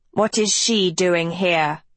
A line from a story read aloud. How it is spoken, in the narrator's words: Vex spat